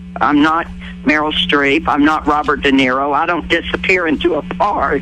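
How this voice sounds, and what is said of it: Tennessee accent. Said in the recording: “a Tennessee accent”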